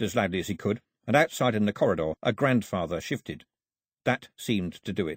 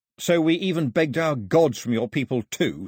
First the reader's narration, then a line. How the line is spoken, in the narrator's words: snapped Mao